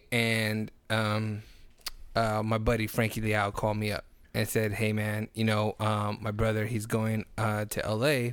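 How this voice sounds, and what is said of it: Voice sounds different, low energy. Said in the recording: “if my voice sounds a little different, it's because I don't want to say that I have lack of energy. It's just my body's adjusting to what I'm eating”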